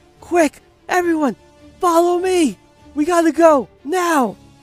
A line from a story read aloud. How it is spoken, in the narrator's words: She screams